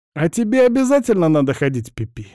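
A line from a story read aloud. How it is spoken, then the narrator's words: Snide brother's question. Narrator (Russian): ехидно осведомился брательник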